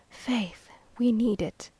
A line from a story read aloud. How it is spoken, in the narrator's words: he said, with a sigh of relief